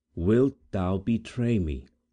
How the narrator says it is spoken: said, calmly

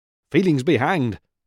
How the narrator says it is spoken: snapped old Nutcracker

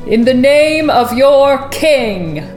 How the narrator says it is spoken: he boomed

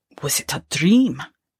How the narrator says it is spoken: muttered

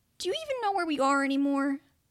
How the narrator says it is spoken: the boy sighed

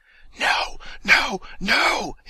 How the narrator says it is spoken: hisses the voice in his ear

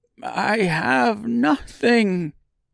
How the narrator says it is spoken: In a frail, cracking voice, he quietly let out

